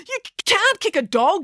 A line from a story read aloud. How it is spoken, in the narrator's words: yelled Joe